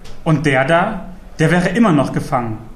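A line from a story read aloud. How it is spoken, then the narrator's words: Dry statement. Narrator (German): stellte Druan trocken fest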